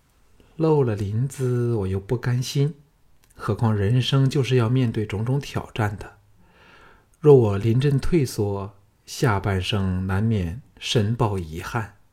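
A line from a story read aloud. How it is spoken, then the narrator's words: Calm, detached. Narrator (Chinese): 凤飞淡淡的说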